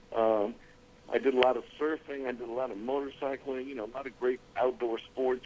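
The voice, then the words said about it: American accent. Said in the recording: “as you can hear my accent, I'm pretty much all-American”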